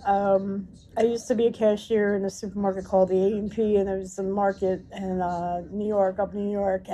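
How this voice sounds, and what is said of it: Rough, failing voice. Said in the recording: “my voice is going to hell again. I've been sick with the flu.”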